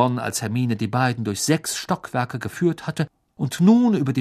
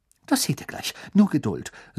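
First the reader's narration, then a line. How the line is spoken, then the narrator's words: Excited. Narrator (German): sagte Hermine aufgeregt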